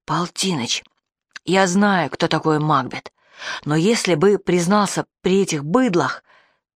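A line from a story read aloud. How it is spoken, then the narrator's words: Whisper. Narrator (Russian): Вася почему-то шепотом сказал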